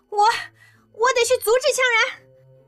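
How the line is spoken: Panicked, agitated shouting. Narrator (Chinese): 刘亚楠……吓得脸都白了，心慌意乱的……激动的喊着

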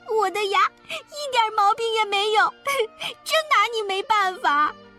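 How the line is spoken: Muffled angry crying and yelling. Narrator (Chinese): 闹闹把嘴捂住，气得又哭又叫

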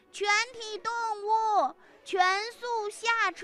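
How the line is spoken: Repeated shouting. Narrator (Chinese): 公鸡一遍又一遍地在驴的耳边大喊

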